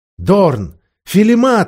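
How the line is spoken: Joyful exclamation. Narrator (Russian): воскликнула Люси, хлопая в ладоши от радости

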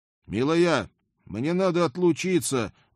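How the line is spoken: Loud, unsure of being heard. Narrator (Russian): громко сказал я, неуверенный, что Хельга меня слышит

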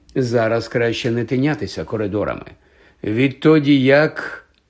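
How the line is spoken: Trailing off, heavy sigh. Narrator (Ukrainian): Не доказавши, він тяжко зітхнув

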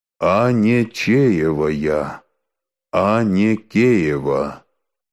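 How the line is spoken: Sepulchral voice. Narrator (Russian): село отвечает за могильным голосом

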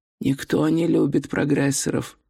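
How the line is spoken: Muttered. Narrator (Russian): пробормотал Горбовский

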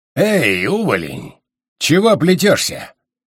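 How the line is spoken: Smirking growl from above. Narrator (Russian): Ухмыляясь, прорычал сверху громила

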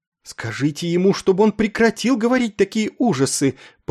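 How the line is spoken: Pleading. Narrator (Russian): взмолилась мисс Креймер

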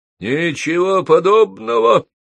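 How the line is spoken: Thundering voice. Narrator (Russian): прогремел Холл

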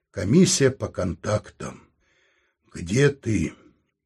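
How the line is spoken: Sad. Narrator (Russian): Антон грустно сказал

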